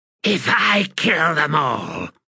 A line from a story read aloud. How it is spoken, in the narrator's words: she hissed